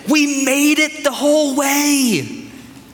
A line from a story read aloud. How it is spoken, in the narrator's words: They would exclaim in their excitement